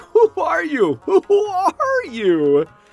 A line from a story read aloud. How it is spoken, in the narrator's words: The people would laugh and say